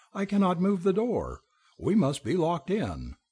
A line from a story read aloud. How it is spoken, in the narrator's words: I cried